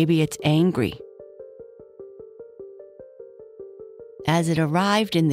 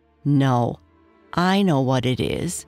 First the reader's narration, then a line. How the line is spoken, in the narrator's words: Charlie said in an annoyed voice